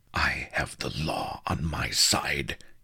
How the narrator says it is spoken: he hissed

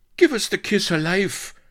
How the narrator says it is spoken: spluttered the colonel

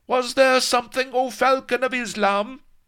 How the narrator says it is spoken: While his minions pounded on the locked door, shouting

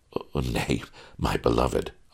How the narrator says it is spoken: I chuckled

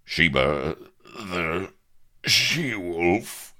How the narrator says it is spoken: gasped Avery, heaving

